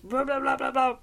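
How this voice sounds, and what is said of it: Scary monster voice impression. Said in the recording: “a monster that goes ... That was a really good impression”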